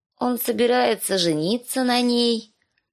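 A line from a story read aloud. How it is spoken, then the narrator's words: Sleepy small child. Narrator (Russian): Сонным голосом объявила кроха Бет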